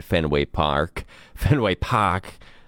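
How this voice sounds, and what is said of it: Put-on Boston accent. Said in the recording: “I said it like a Boston person. Boston accent. ... it sounds like you're a Bostonian all the way.”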